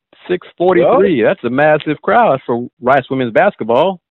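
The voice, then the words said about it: Sarcastic tone. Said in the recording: “being sarcastic”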